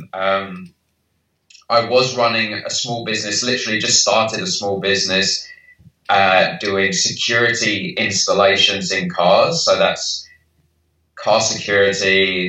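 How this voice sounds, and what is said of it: British accent. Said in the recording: “clearly by my accent, I'm from the UK”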